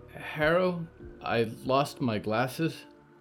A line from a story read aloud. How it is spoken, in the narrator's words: Clara said